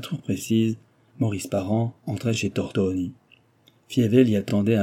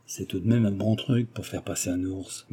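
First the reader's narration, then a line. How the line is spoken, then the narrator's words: Murmured. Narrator (French): murmura-t-il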